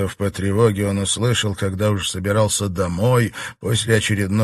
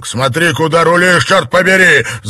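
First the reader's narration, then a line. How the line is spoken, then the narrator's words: Yelling. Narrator (Russian): заорал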